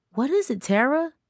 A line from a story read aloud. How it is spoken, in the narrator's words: Darcy asked urgently